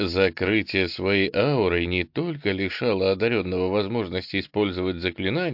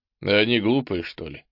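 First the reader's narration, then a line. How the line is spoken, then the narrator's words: Chuckling. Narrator (Russian): хохотнул Ул-Эсм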